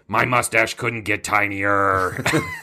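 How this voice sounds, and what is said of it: Imitates another person's voice. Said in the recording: “That's a really good impression. ... It's dead on.”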